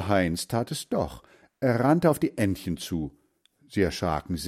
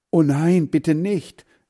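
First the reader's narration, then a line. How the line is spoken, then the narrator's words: Calling out. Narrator (German): rief Hans Frieder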